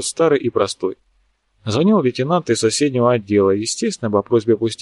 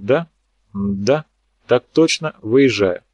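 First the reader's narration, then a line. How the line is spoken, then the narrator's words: Crisp, clipped. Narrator (Russian): отчеканил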